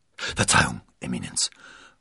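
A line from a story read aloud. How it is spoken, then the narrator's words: Murmuring. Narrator (German): murmelte Rochefort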